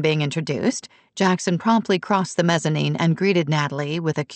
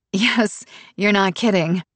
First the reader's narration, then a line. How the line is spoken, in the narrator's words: said with a laugh